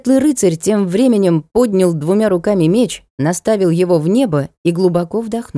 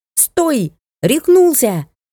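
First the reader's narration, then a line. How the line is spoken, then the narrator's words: Yelling, accent dropped. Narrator (Russian): завопил Гансангер, забыв о вороньем акценте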